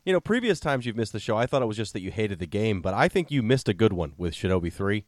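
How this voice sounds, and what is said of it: Congested, sick-sounding voice. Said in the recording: “I've got a cold. I probably sound even worse than usual.”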